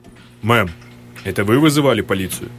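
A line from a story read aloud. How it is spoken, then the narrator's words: Serious question. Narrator (Russian): Серьезным голосом спросил первый полицейский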